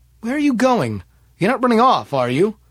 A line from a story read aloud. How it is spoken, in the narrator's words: called out